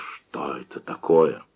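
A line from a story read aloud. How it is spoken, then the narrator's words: Strained whisper. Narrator (Russian): он с трудом прошептал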